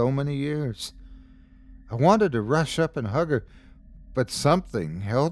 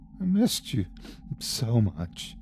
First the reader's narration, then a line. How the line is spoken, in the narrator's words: she said between sobs